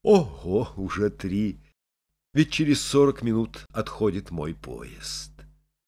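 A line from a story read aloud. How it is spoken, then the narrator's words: Muttered. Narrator (Russian): Саша пробормотал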